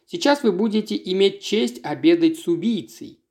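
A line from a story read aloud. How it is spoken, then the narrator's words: Plain. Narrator (Russian): сказал он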